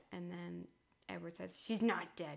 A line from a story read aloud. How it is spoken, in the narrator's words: he growled